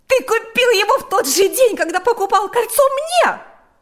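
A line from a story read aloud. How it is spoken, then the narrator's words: Screamed. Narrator (Russian): закричала Марьяна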